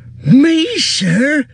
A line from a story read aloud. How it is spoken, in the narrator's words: cried Sam, springing up like a dog invited for a walk